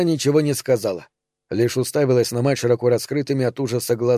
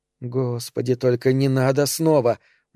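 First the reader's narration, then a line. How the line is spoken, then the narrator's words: Silent inner moan. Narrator (Russian): мысленно простонала Эльза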